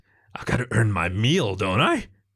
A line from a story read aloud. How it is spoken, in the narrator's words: He growled lustily